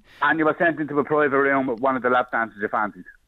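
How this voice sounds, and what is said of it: Dublin Irish accent. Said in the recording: “you know I'm from Dublin from the accent”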